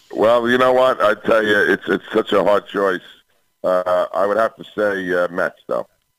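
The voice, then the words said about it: New York accent. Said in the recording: “You know he's from New York when he starts talking. ... I love your accent.”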